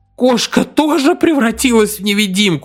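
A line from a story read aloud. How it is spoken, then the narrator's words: Howling wail. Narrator (Russian): взвыл Арнольд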